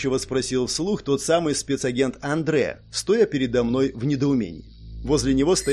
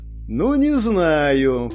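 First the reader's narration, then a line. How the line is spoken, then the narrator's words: Drawling. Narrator (Russian): протянул спецназовец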